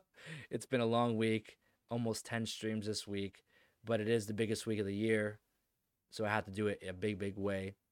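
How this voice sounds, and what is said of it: Hoarse, strained voice. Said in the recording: “My throat, if you can hear, my throat is kind of hoarse. My throat is sore from talking so much this week.”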